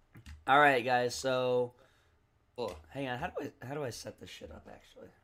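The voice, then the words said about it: Strained, cracking damaged voice. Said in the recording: “my voice is so fucked up. I cannot fix it. ... He hasn't hit puberty. ... I can't sing. I can't talk right.”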